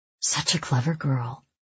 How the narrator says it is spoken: he murmurs in my ear

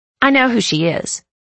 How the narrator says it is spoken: Blakely snapped

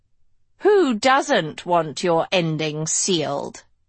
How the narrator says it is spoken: Lady Lesso purred

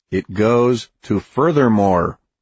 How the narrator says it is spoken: he said firmly

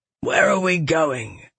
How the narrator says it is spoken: Galathon growled

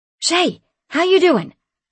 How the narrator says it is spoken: I called out to her

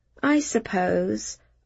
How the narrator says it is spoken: I agreed, a little too weakly for my own liking

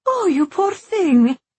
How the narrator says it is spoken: Alma cried

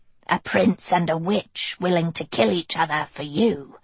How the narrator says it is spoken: she rasped in her scratchy voice

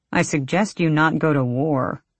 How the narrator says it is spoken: Arisha grumbled

